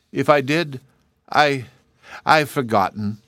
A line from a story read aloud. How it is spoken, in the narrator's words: he stammered regretfully